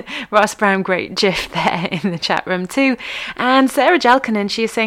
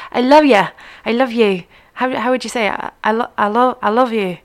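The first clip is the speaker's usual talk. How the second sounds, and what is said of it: Weak attempt at Scottish accent. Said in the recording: “Scottish ... my Scottish accent is terrible”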